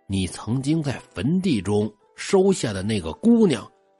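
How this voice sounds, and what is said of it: Lowered, quiet voice. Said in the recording (Chinese): “老道压低了声音， 小声就说”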